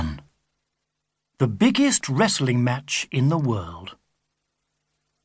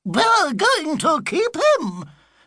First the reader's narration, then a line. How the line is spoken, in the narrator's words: screeched the old lady